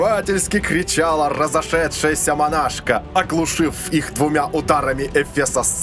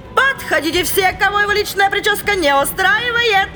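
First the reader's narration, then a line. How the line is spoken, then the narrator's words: Cheerful shout. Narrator (Russian): Весело крикнула она в зал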